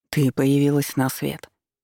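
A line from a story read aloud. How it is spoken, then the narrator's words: Soft, gentle. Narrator (Russian): мягко произнес он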